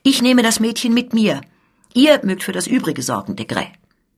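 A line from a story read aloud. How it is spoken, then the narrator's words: Decisive loud call. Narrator (German): Schnell entschlossen rief die Scuderie laut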